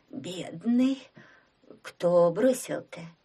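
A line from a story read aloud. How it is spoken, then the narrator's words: Hoarse question. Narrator (Russian): спросила хрипло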